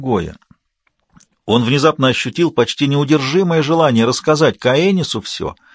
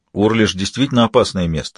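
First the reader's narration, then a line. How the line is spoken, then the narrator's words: Plain. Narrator (Russian): сказал он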